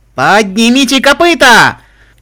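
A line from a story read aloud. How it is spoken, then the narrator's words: Repeated shouting. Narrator (Russian): крикнула Вильвет Ремеди несколько раз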